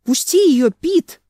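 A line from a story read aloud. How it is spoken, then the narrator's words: Yelling. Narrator (Russian): заорал он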